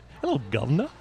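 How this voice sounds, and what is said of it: Put-on British accent. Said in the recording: “We try to do British accents, and that's all I know.”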